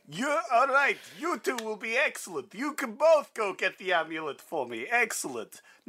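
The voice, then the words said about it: Dracula character voice. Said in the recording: “do the Dracula voice ... That Dracula voice is played expertly”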